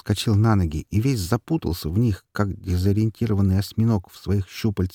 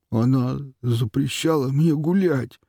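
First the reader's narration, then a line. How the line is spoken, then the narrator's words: Sudden whimpering, man. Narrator (Russian): вдруг захныкал мужчина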